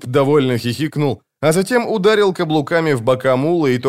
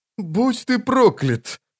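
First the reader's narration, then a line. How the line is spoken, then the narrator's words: Sighing. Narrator (Russian): вздохнул он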